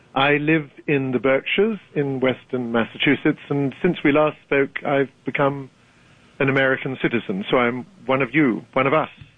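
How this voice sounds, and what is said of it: British accent. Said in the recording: “despite your accent... Has any Brit ever lost his accent?”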